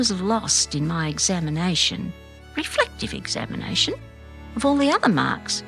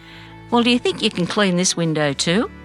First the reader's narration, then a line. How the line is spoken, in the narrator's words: I laughed out loud